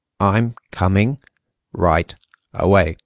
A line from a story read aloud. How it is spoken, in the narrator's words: said Gregor slowly and deliberately